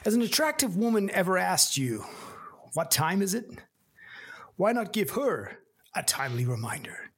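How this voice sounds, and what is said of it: Put-on American accent. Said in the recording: “I think you should probably do this in an American accent.”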